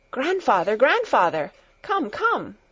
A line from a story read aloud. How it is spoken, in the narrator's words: Heidi called out